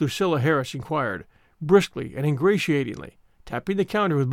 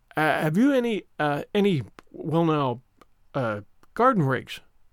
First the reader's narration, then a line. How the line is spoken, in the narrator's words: stammered Matthew